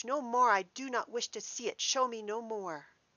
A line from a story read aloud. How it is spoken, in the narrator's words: cried Scrooge